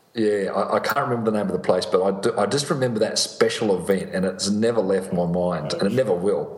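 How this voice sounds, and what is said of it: Australian accent. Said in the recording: “you've got that beautiful Australian accent”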